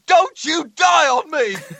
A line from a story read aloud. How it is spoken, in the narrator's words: he screams